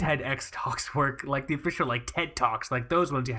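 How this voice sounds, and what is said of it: Usual voice. Nothing is said of it.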